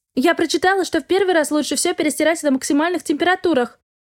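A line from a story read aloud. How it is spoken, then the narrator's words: Wife calling after someone. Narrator (Russian): крикнула вдогонку жена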